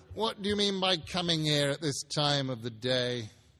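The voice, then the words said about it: Gruff growling voice as Scrooge. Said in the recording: “growled Scrooge in his accustomed voice as near as he could feign it”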